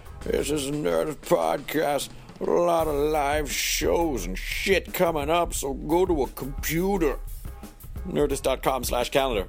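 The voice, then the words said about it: Scratchy, crusty character voice. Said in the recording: “My voice is a little scratchy at the end of a long day of recording a lot of podcasts and talking loudly ... I like to do this voice a little bit because it sounds really crusty ... I'm done with this character”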